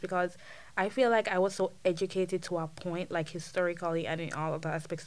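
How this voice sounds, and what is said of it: Jamaican Caribbean accent. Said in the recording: “I retain my accent so much ... I would never let go of my Caribbeanness. I would never let go of my accent ... being a Jamaican or even a Caribbean citizen”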